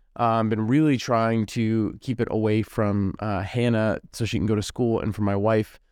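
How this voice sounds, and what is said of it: Voice sounds a little sick. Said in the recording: “you might be able to hear it in my voice still, I've been a little sick.”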